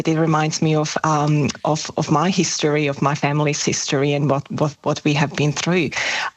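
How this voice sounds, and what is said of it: Shaky, emotional voice. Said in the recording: “as you can hear in my voice, I'm still shaking”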